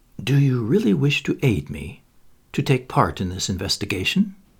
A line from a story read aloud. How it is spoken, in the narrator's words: he added in a low tone